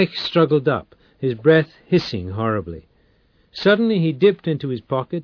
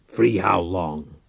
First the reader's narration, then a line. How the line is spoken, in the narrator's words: Reich said through his teeth